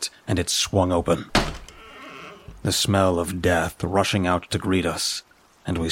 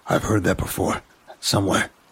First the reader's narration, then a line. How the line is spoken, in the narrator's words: Ryan said, keeping his voice low